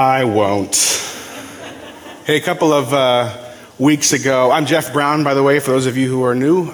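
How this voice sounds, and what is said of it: Usual voice. Nothing is said of it.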